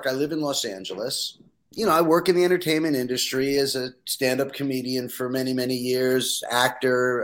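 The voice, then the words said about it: Slight New York accent. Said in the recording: “I can hear the New York accent a little bit”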